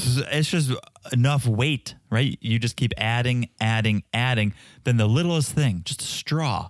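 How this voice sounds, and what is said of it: Usual voice. Nothing is said of it.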